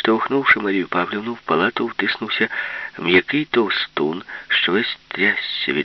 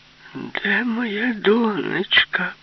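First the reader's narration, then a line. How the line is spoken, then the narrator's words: Fat man, thin voice. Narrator (Ukrainian): промовив товстун тонким голосом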